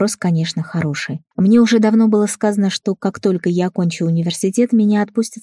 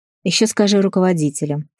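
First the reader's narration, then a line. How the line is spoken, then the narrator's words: Old man snorting, calming down. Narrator (Russian): фыркнул дед, успокаиваясь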